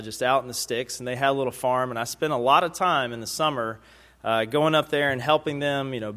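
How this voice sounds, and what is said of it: Southern US Alabama accent. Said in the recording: “As you can probably tell by now from my accent, I am not a native Brooklynite. I was born and raised in Tuscaloosa, Alabama”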